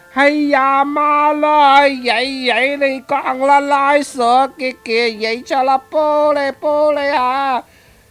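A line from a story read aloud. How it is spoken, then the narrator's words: Loud yell. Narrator (Vietnamese): Lão mới thét lớn lên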